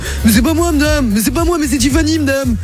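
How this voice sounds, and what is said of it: Imitates another person's voice. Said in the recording (French): “Et je l'imite un peu”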